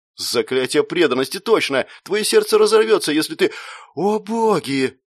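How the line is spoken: Frightened, breaking off. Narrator (Russian): Он испуганно смолк

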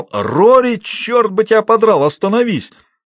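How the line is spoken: Yelling. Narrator (Russian): заорал

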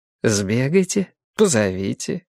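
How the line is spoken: Lazy retort. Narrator (Russian): лениво парируя

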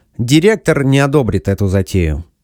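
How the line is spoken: Dry statement. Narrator (Russian): сухо заявил Макдоналл

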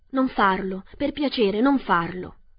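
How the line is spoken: Pleading. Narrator (Italian): supplicò l'uomo di latta

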